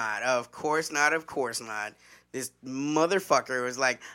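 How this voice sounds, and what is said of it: Usual voice. Nothing is said of it.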